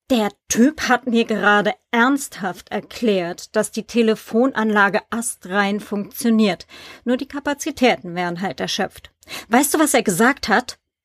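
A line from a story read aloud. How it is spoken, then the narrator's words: Hiss. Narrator (German): fauchte sie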